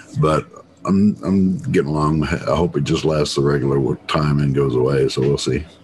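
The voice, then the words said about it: Low, slightly sick-sounding voice. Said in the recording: “I've been kind of sick... I think it's a summer cold... you might tell it in my voice. It's a little low, even for me.”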